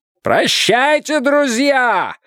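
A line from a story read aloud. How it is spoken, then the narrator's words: Powerful shout. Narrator (Russian): мощным голосом крикнул им Слоттер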